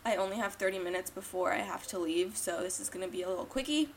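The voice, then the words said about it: Groggy, rough-sounding voice. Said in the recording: “excuse my voice. ... I just woke up.”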